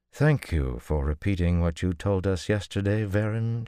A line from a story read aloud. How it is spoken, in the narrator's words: she said dryly